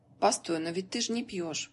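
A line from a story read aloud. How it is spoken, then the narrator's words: Thoughtful question. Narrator (Russian): задумчиво спросил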